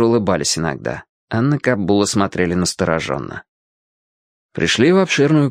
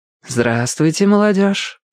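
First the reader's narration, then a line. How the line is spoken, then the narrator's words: Velvety-voiced greeting. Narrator (Russian): все тем же бархатистым голосом приветствовала их Диана Яковлевна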